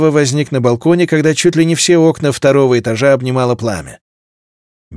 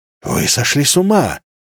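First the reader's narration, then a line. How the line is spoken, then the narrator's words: Breathless exhale. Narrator (Russian): выдохнул Ансел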